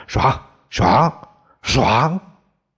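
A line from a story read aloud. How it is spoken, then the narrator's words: Breathless, repeated shouts. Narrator (Chinese): 李光头扫得满头大汗，气喘吁吁，连声喊叫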